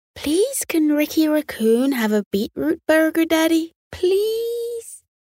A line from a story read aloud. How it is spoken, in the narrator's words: pleaded